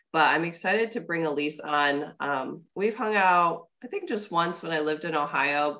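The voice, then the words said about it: Slightly congested voice. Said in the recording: “I am a little congested today, so my voice is going to sound just a little bit off from what it normally does.”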